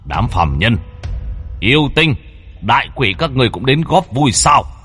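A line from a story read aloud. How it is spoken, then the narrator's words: Loud laughing. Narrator (Vietnamese): Thiết Quan Âm cười lớn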